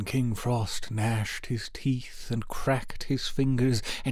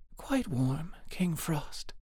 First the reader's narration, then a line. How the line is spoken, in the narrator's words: though her breath was almost frozen on her lips, she whispered gently